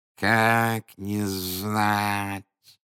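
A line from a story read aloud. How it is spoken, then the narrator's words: Old woman's toothless mumble. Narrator (Russian): прошамкала старуха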